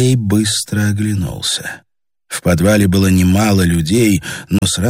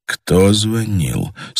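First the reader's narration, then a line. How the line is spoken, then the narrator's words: Quiet question. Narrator (Russian): спросил Андрей тихо, чтобы голос его не долетал до стен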